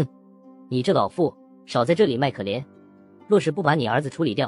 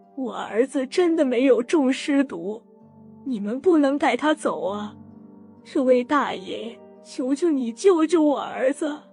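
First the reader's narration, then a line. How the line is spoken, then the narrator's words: Old woman's sobbing plea. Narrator (Chinese): 老妇人痛哭流涕的哀求道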